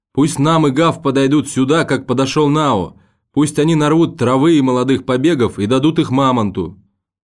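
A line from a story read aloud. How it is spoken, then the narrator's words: Shout. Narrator (Russian): сын леопарда крикнул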